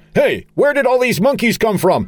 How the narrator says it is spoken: Charlie, shouting

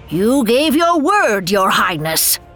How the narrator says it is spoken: screamed

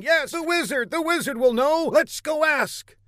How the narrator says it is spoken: A tumult rose amongst the crowd, with everybody shouting

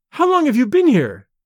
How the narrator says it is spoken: she cried

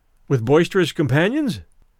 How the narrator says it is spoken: I supplied the words in my cheerfulest tone

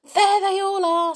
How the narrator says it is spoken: said Anne excitedly

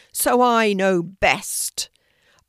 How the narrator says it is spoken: roared

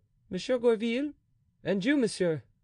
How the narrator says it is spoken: said he in a sharp, dry tone

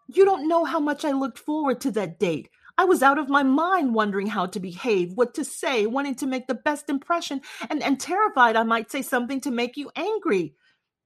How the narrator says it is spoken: choked out

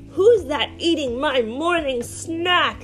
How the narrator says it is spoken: It growls

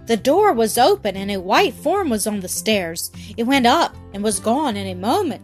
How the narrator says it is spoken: gasped John

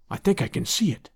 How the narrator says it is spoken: he whispered

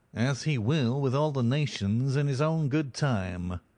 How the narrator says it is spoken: said the other in a nasal voice

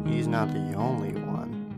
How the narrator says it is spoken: I mumbled to myself

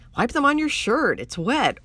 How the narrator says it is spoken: Orly said

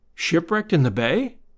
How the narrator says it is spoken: I said

